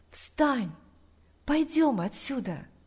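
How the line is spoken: Whisper in ear. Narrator (Russian): Тот же голос прошептал ему на ухо

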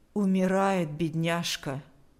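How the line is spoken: Even voice. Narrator (Russian): сказала она ровным голосом

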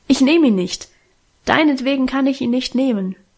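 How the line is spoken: Calling out. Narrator (German): rief sie

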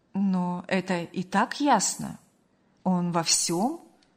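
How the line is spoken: Calm, restrained remark. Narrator (Russian): спокойно и сдержанно заметила

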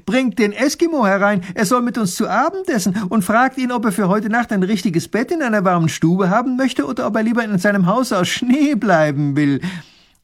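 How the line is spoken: Calling out. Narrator (German): ruft er

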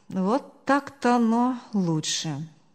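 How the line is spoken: Relieved disbelieving sigh. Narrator (Russian): успокоенно вздохнул он, сам не веря, что все так легко разрешилось

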